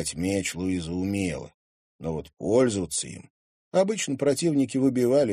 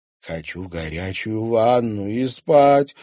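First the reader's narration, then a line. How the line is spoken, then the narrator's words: Exhausted moan. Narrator (Russian): обессиленно стонала Луиза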